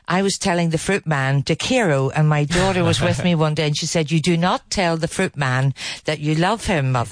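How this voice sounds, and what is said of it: Speaks with a distinct accent. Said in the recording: “loving your guest's accent”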